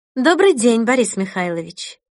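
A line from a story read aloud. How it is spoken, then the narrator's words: Calm tone. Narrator (Russian): произнесла спокойным тоном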